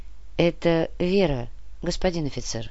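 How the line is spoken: Soft unfamiliar voice. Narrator (Russian): мягко произнес незнакомый голос

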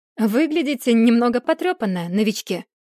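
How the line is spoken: Laughing. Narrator (Russian): рассмеялась Тара

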